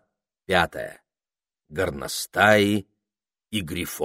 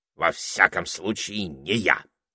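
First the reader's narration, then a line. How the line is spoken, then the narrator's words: Snorting parrot. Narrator (Russian): фыркнул попугай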